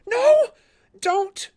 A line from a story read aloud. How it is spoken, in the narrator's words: More rasping